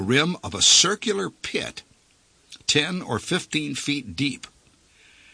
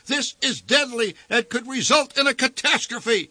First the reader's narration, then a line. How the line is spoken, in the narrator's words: shouted the voice on the PA system over the racket